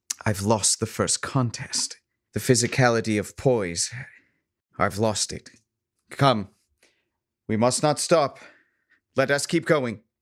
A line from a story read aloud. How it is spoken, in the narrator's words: she says wearily